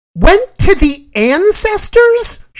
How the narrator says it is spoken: She shrieked

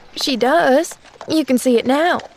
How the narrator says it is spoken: said Nancy

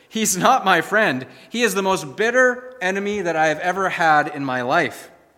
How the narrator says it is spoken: exclaimed the old preacher

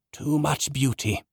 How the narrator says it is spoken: Zenas gasped as he went into the next realm

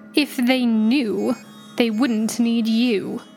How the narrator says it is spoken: sneered

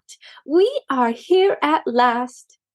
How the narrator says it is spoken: exclaimed Maisie

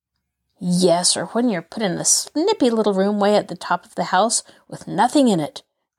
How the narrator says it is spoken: growled Nancy

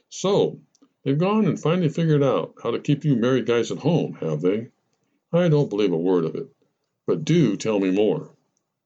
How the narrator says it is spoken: When Jane stopped laughing, she said

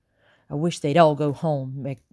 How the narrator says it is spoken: Becky muttered

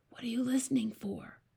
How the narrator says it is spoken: Sophie whispered back

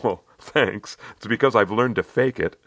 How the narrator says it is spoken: She gave a little laugh, saying

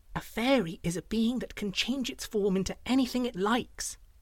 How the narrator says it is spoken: told in a hushed whisper

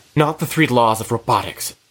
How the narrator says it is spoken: Tamara snaps

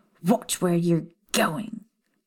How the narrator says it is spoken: the blonde snapped

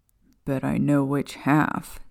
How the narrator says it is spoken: Sirius mumbled under his breath

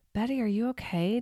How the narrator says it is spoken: Delia asked

